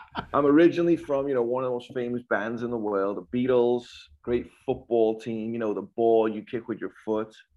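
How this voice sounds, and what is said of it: Liverpool English accent. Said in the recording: “if I don't tell you where I'm from, you're going to wonder why I'm speaking in tongues ... You Yanks are the ones with the accent ... born and raised Liverpool, England”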